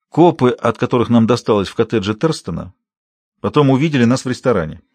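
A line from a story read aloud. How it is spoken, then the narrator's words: Plain. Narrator (Russian): ответила Каролин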